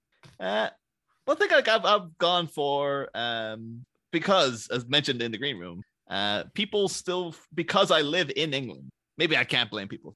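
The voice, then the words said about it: Irish accent. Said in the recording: “it's a very obvious accent ... I am in fact Irish. I am not English at all.”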